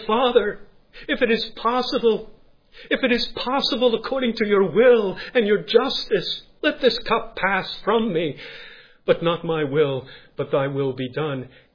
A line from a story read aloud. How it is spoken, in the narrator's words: in great agony ... he cried to his heavenly Father